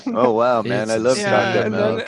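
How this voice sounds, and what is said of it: Imitates another person's voice, stoned-sounding. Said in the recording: “That was an amazing impression... You do a good impression.”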